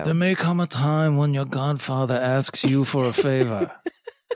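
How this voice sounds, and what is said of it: Poor Godfather-style mobster impression. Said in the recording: “That may be my worst impression so far.”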